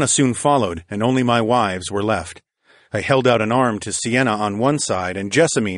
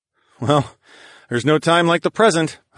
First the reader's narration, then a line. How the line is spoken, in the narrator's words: chuckled